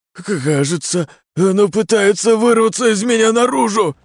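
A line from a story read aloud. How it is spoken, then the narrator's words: Frightened whimper. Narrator (Russian): проскулил он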